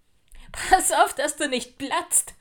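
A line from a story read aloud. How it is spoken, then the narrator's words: Exuberant shout. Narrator (German): rief Henry übermütig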